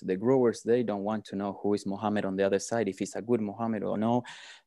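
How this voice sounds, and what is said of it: South American accent. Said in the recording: “your accent doesn't sound South African... they don't sound like you. You've got to be from South America”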